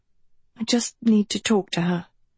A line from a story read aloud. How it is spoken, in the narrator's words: she said anxiously